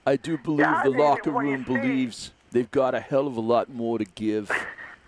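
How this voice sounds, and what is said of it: Imitates another person's voice. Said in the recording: “That's pretty good, huh? you're good. You got a future in this impersonation business. ... got 3 days left of his Brett Brown.”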